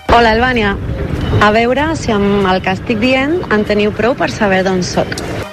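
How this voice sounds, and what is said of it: Slight accent, sweet singsong lilt. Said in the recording (Catalan): “podria semblar italiana ... té molt poc accent ... fa una mica de com de cantarella dolça. Mm. M'ha semblat que era d'Itàlia.”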